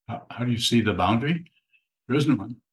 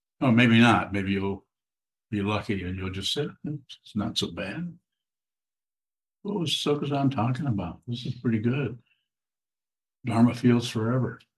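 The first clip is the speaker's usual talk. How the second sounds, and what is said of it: Sarcastic tone. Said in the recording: “I'm being sarcastic”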